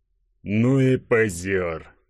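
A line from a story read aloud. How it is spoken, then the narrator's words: Hoarse rasp. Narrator (Russian): прохрипел Игорек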